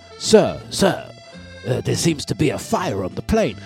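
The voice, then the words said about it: Weak put-on French accent. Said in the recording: “I'm very bad with French. I can't do the French accent, but if I was to do a French accent, it would be a little bit like ... That's my French”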